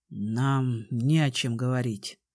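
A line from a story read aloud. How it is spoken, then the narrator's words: Cold. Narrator (Russian): холодно отозвался Конор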